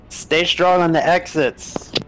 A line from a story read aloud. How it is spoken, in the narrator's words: Raylan shouts out in a hoarse voice